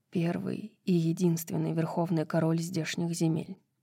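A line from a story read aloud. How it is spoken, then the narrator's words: Quiet answer. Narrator (Russian): так же тихо ответила Зриэль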